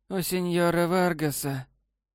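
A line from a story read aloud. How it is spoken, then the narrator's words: Hoarse low female voice. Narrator (Russian): хриплым низким голосом сказала незнакомка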